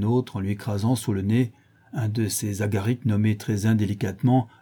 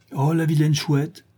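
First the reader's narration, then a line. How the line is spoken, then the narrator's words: Shouting. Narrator (French): cria un troisième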